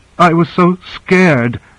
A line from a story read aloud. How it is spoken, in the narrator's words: she sobbed